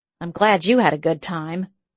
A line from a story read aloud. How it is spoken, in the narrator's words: muttered